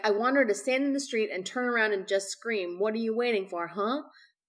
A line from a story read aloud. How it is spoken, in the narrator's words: Love Hewitt said